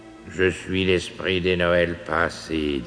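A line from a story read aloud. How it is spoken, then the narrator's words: Monotone voice. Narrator (French): dit-il d'une voix monocorde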